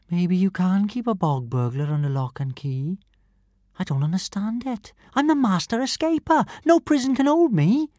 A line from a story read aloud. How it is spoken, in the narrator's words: she said sadly